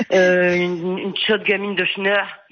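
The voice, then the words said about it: Northern French accent. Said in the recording (French): “je le fais avec l'accent, parce que moi aussi je suis du Nord”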